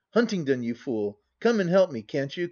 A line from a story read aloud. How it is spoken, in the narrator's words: cried Hattersley, himself somewhat weakened by his excesses